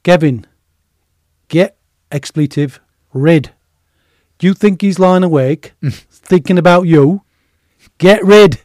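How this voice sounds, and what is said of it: Imitated Yorkshire accent. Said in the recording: “he was a Yorkshireman ... That's a good accent, that.”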